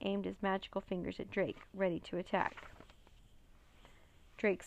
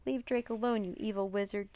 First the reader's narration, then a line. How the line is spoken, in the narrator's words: Jean cried